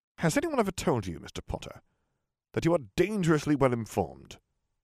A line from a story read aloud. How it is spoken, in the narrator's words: he said irritably